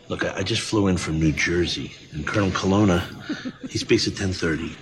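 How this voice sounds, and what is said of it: New Jersey accent, hard R. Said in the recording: “Hard R on bar and Jersey... his more natural non-Guido accent”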